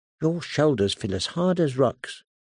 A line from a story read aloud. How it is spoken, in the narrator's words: she murmured